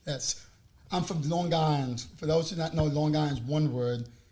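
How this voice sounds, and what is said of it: New York accent. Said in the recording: “do you hear the New York accent?”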